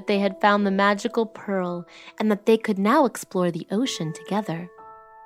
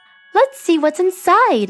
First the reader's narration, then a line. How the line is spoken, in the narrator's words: exclaimed Marina